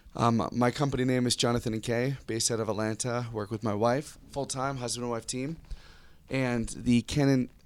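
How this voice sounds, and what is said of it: Slightly worn-out voice. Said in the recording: “my voice is a little out”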